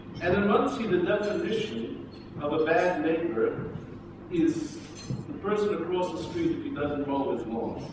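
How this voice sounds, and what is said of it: Non-local, non-British accent. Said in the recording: “You can tell from my accent, I wasn't born in Gateshead.”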